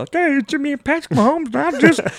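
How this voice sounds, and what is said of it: Patrick Mahomes impression, Kermit-like voice. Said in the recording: “That's how he talks ... a Mahomes impression ... That was straight up ... Cosby ... Kermit meets Cosby”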